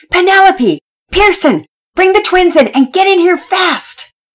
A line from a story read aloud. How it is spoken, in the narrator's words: Mama Peters yelled